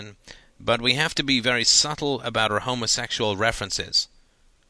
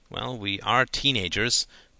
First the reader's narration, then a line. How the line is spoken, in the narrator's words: muttered Todd